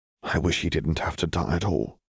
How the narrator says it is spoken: Harry murmured

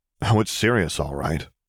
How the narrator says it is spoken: muttered Jaina

